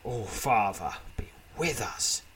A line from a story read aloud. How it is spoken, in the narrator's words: mutters Uryo